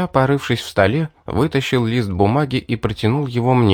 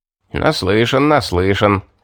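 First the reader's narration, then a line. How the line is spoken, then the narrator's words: Chuckling. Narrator (Russian): хохотнул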